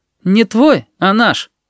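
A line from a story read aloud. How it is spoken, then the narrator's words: Cheeky curt reply. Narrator (Russian): Данилка дерзко хмыкнул и ответил коротко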